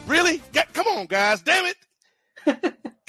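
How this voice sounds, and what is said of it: Yelling in frustration. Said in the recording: “sorry for yelling”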